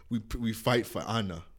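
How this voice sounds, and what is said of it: Put-on foreign accent. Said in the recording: “I don't know what accent that was. I just did. I tried my best.”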